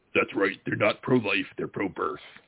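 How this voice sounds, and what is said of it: Imitates another person's voice. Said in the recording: “Let's see if I can do a good Jesse Ventura ... That's my best imitation of Jesse Ventura”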